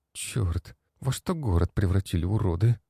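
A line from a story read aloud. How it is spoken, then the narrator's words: Quiet cursing, young woman. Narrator (Russian): Девушка тихо выругалась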